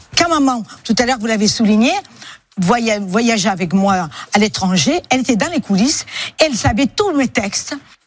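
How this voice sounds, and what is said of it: Woman speaking with a French accent. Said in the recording (French): “C'est une dame qui a un accent, déjà.”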